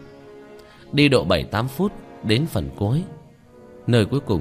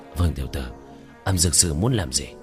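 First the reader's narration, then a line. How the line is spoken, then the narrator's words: Lowered voice. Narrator (Vietnamese): Hoa Thành hạ giọng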